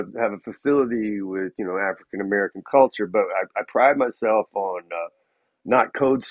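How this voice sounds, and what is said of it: Usual voice. Nothing is said of it.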